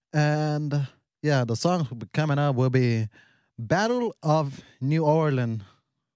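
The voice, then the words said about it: Noticeable regional accent. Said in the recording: “If I'm saying it, Ireland, that's not what I'm saying, but it's my accent.”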